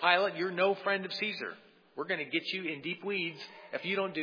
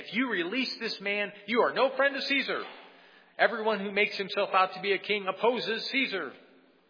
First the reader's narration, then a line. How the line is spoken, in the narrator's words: The Jews cried out saying